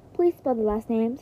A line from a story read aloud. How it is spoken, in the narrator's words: said the operator